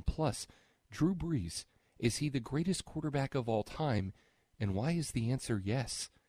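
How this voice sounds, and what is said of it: Smooth public-radio announcer voice. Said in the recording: “That's a pretty good NPR voice. ... That is an excellent NPR voice.”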